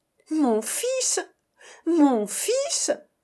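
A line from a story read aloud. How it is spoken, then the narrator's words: Exclamation. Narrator (French): s'écria Égée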